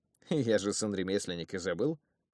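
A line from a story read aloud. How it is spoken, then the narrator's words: Short laugh. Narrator (Russian): хохотнул я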